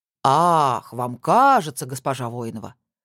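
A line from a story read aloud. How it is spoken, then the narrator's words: Quiet, cold fury. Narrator (Russian): с холодной яростью тихо переспросил Костин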